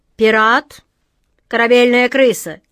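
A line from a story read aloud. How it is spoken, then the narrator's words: Stern command. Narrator (Russian): строго приказала атаман Джина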